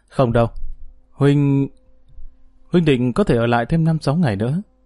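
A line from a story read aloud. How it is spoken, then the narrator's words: Soft sigh. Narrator (Vietnamese): khẽ thở dài nói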